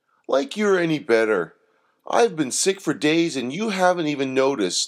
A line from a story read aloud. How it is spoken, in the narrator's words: snapped Doreen